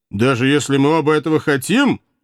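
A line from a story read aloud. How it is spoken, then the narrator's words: Brave snort. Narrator (Russian): храбро фыркнул казак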